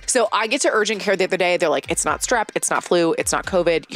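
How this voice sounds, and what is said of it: Congested, stuffy-nosed voice. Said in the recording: “I have come down with a very bad cold this week. I'm sure you can kind of hear it. Stuffy nose, sore throat”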